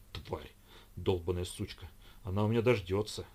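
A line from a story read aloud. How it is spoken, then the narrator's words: Grumbling. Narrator (Russian): это ворчание было адресовано Лидии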